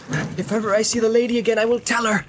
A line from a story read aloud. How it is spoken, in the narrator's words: he cried